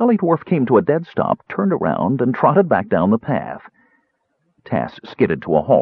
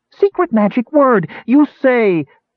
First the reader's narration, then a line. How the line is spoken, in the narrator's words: Boo-Boo screamed in outrage